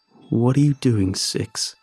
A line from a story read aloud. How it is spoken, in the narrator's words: He asks me in his low, wet voice